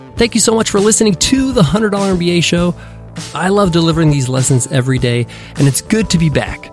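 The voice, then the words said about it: Slightly off, under-the-weather voice. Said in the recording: “my voice is a little bit off. I've been a bit under the weather for some time”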